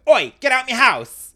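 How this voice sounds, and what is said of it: Put-on British accent. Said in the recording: “we're going to do British accents ... whatever accent you can try”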